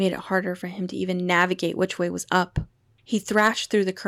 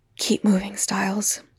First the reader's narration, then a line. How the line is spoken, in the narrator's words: he whispered to himself